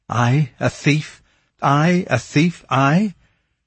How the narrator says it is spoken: She choked with rage

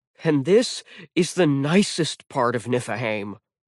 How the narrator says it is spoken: Jack grumbled

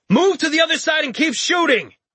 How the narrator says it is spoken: he exhaled in frustration and shouted again

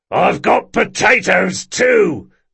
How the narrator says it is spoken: yelled the merchant

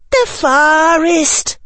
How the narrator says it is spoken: gasped Tracy

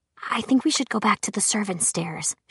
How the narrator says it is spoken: she whispered

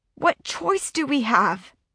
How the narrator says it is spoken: Whit asks, his voice strained with emotion

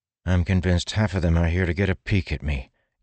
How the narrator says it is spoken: Kaladin said with a sigh

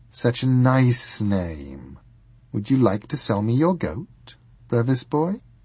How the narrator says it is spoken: she purred

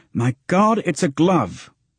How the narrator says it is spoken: exclaimed

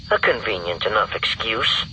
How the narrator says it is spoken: Rogue Two muttered

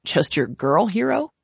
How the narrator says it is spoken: Carter asks, laughing

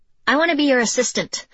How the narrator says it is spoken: Izzy blurted out

